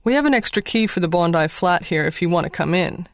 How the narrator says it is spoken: replied

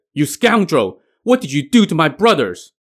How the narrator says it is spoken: The third brother, Mo Li Hai, shouted

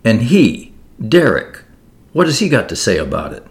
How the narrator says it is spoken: demanded sharply

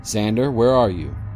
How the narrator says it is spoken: he asked

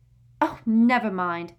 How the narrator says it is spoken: snapped Parvati

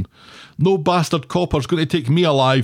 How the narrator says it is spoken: shouts Laura, and in tears

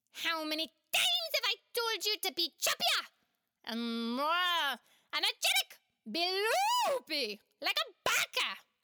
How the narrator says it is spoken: he shrieked

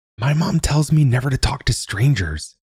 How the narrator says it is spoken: Thomas whispered

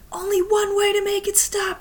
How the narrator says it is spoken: screamed

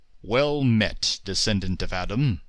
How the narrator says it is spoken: boomed this apparition

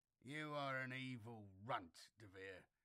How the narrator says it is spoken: Bullivan growled petulantly

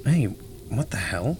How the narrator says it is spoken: He muttered

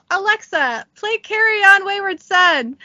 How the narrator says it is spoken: from inside the bathroom yell

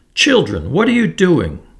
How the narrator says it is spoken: the gentle woman cried

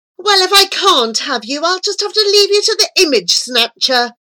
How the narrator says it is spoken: the angel screamed

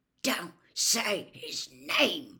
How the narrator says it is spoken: Ron hissed through gritted teeth

